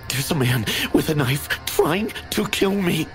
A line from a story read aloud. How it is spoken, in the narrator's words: I gasped